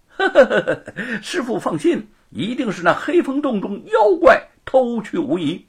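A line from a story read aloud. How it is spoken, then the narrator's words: Laughing. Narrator (Chinese): 美猴王笑道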